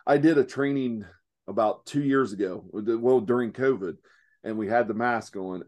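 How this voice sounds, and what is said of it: Rural Southern American hillbilly accent. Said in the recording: “I do speak hillbilly ... my accent does not come across to very”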